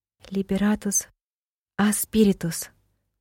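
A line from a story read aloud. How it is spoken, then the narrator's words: Whispered. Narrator (Russian): прошептала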